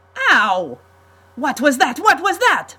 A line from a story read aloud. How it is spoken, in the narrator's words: Montesanto shouted